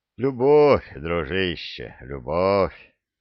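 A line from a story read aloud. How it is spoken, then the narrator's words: Quiet laughing. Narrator (Russian): тихо рассмеялся император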